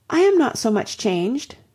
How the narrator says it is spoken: cried Anne, and stopped, fearing she hardly knew what misconstruction

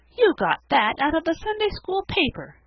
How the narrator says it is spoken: cried Felicity

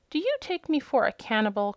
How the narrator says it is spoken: cried the hen indignantly

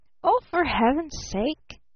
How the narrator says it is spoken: gasped Barton

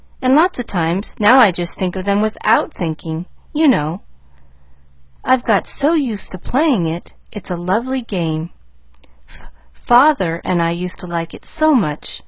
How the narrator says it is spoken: faltered

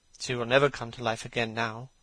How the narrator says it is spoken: murmured the lad, burying his face in his hands

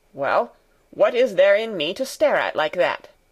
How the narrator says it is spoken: he suddenly growled out

